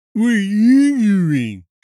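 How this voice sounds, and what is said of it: Poor imitation of another person's voice. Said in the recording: “That was a terrible impression.”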